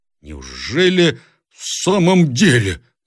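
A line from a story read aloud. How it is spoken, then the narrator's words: Shouted. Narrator (Russian): закричал Буркин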